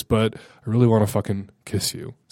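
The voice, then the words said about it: Sexy, seductive voice. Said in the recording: “Sexy voice.”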